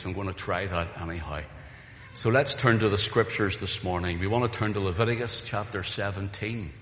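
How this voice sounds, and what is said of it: Weak, recovering voice. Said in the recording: “I felt a little weak in my voice still from losing my voice. And it is not 100% here yet”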